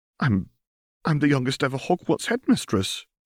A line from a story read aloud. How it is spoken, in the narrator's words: she exclaimed